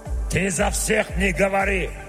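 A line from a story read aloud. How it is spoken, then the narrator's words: Barked gruffly. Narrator (Russian): рявкнул дварф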